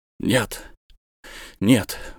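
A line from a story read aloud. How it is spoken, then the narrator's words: Exclamation. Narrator (Russian): воскликнул он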